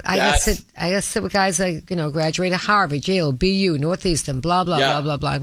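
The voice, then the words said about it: Heavy accent, drops R sounds. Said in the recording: “I just sounded so stupid with that accent ... I don't pronounce my R's ... that heavy accent that I never got rid of”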